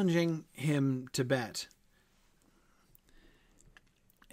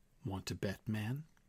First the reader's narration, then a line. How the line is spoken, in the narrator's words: Mike said softly